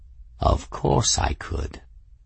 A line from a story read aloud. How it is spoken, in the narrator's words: Raoul purred, clearly pleased